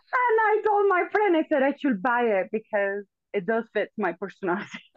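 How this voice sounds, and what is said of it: Venezuelan accent in English. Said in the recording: “beautiful accent ... I was born in Venezuela, raised in Venezuela ... my accent just sticks with me”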